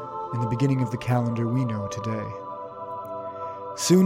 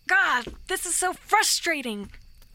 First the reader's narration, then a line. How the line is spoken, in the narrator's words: She exclaimed